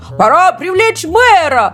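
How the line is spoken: Shout. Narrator (Russian): закричал Сэм

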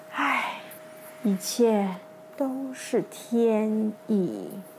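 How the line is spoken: Quiet sigh. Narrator (Chinese): 悄悄的叹息说

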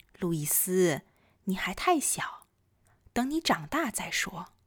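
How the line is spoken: Gently. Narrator (Chinese): 他温柔地说

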